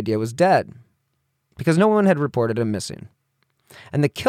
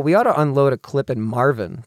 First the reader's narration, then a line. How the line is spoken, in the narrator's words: Smith said